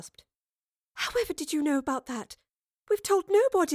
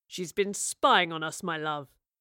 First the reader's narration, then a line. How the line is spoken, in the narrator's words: Rivers growled